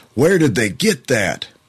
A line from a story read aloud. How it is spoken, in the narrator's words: the radio announcer yelled